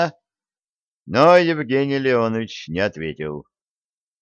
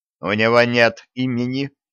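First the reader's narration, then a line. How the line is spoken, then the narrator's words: Stern. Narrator (Russian): строго сказал Евгений Леонович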